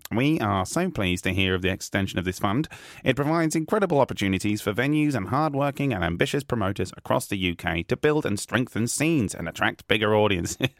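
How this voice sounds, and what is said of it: Imitates another person's voice. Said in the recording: “I'm trying to give my best Joe Bailey impression.”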